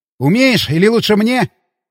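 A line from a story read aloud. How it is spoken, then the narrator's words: Shout while running. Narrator (Russian): крикнул я, подбегая к машине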